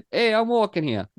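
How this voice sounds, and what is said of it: Poor New York accent, sounds Italian. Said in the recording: “I can't do my New York accent in front of Spencer, but I can do an Italian accent. Like suddenly I'm fucking Mario ... That wasn't good. That was not good.”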